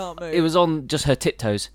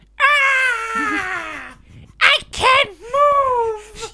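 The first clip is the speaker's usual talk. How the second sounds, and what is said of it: Dramatic impression of a frightened woman. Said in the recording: “was my impression not spot on? ... It was spot on, but you sound a lot like the woman from It when she finds the guy dead in the shower”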